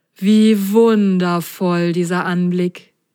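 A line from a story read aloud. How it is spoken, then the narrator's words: Happy sigh. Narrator (German): seufzte Prop glücklich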